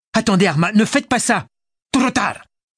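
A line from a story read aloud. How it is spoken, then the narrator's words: Yelling. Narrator (French): hurla Arma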